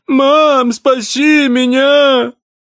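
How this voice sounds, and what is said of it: Mocking imitation of a child's cry. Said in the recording (Russian): “передразнил”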